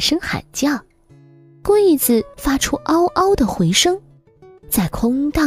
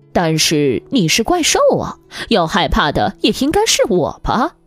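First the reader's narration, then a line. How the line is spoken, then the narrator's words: Plain. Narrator (Chinese): 路易斯说道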